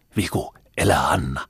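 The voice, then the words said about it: Whispering. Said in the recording (Finnish): “Kuiskasi taaskin Kepu, äitinsä korvia vältellen.”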